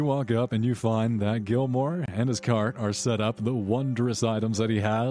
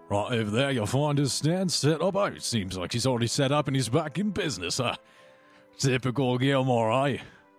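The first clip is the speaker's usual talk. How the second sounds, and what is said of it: Character accent, slipping. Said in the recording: “I'm mm. slipping on that accent.”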